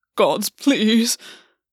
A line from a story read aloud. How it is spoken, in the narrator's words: Gwen moaned